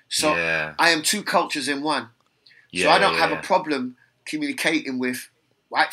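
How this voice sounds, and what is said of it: London accent. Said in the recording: “my accent is London ... I don't have a Caribbean accent ... I don't have an American accent”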